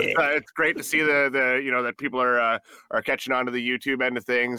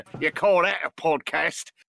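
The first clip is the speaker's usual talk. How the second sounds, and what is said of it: Mock Australian or pirate accent. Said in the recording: “an impression of Phil's Australian accent or a pirate”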